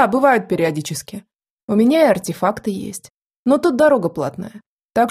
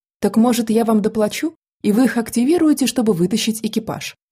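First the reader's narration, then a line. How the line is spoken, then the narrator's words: Gentle question. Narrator (Russian): Насколько могла мягко, спросила я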